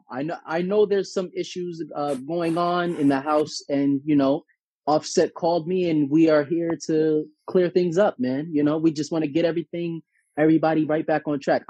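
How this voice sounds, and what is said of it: Poor impersonation of Dr. Ish. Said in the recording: “Dr. Ish. This is a horrible impersonation.”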